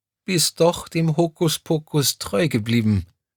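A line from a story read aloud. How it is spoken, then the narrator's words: Tearful yet joyful voice. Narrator (German): ergänzte Crescentia Rausch mit verheulter Stimme und strahlte dabei über das ganze Gesicht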